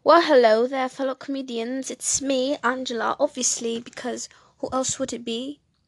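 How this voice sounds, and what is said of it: Put-on British accent. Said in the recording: “I did that in a British accent ... I was starting in a British accent”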